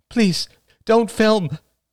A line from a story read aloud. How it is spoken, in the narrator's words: cried Rachel weakly